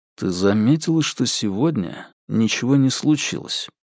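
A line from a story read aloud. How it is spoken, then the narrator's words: Low-voiced question. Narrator (Russian): спросил вполголоса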